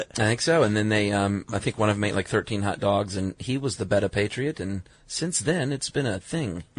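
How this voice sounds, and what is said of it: Old-time Coney Island accent. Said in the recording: “Can I stop doing that accent now?... It sounds very Coney Island... Very Coney Island 1916. I mean, you nailed it.”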